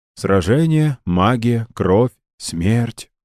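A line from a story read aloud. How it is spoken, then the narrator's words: Weary. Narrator (Russian): устало произнес он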